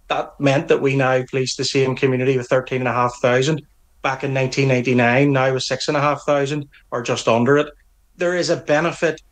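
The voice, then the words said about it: Northern Irish accent. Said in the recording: “You can tell by my accent that I'm a police officer in Northern Ireland”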